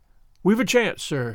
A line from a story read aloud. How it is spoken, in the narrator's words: he said